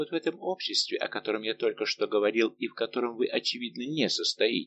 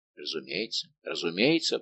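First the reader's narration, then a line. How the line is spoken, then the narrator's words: Muttered. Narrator (Russian): пробормотал Безмо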